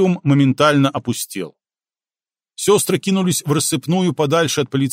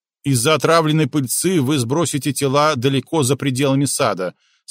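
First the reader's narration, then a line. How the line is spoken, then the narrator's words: Plain. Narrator (Russian): сказала она им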